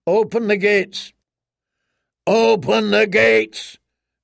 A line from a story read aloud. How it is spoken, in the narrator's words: bellowed Sir Clayton Suggs, in a voice as deep as a war horn